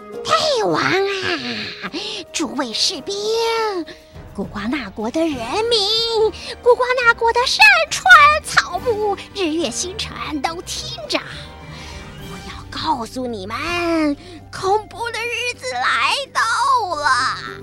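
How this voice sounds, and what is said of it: Unpleasant old witch's voice. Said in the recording (Chinese): “这个像猴子的老太婆……发出令人讨厌的声音说”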